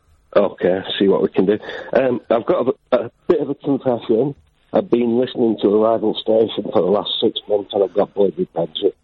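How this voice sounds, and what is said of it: Muffled, hard-to-hear voice. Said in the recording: “You sound very muffled”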